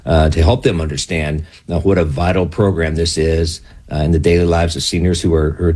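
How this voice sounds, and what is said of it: Soothing radio voice. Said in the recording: “You got a great voice. Like, your voice is very soothing. When I hear you, I'm thinking, this is a great radio voice”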